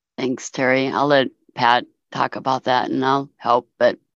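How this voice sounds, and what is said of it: Hoarse, failing voice. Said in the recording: “I keep losing my voice today.”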